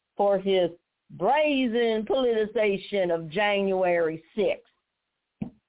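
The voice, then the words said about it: Imitated Southern US accent. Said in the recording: “I'm going to use his southern accent”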